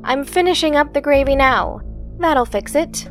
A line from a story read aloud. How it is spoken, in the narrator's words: Sensing the apprehension, Saeva sighed and called out